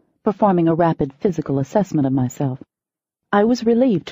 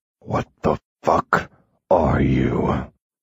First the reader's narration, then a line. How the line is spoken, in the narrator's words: He snarled